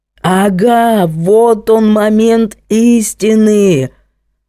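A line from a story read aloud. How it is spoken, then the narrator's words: Deafening bellow, captain. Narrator (Russian): орал капитан, оглушая даже Герду Альбертовну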